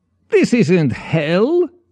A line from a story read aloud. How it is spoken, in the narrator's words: Lvov scoffed